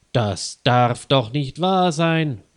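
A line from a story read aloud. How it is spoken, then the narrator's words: Loud exclamation. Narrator (German): ruft Leo Schmidt laut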